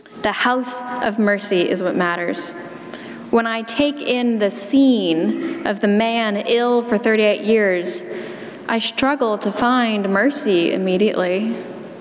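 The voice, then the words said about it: South Carolina accent. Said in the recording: “my South Carolina accent”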